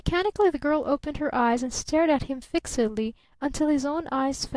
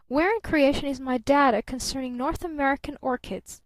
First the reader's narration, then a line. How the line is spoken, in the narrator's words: called her father sharply from the next room